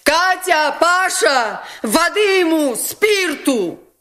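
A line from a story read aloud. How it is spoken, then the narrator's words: Urgent shout. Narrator (Russian): крикнула Настасья Филипповна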